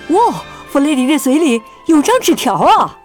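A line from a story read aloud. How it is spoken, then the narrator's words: Excited shout. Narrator (Chinese): 尼克兴奋地叫道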